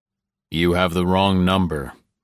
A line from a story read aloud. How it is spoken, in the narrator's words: said